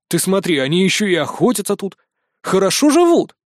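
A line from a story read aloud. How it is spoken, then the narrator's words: Snorting scoff. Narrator (Russian): хмыкнул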